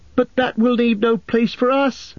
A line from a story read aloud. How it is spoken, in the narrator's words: cried Pippin in dismay